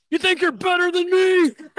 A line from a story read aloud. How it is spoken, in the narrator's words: he just yells out